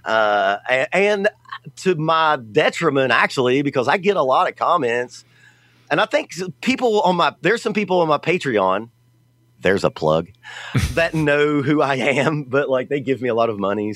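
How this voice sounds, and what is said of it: Southern American accent. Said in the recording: “I'm from the South, obviously. This accent definitely ain't New Jersey.”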